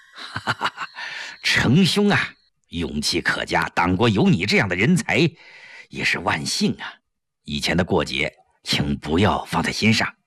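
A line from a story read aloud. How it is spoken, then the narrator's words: Beaming. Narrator (Chinese): 吴云飞顿时眉开眼笑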